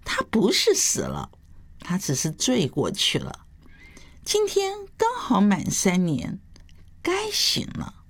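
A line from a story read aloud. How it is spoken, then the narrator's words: Hurried, smiling explanation. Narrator (Chinese): 杜康赶紧笑着解释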